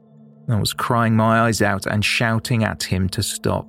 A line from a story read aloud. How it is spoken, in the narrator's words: she said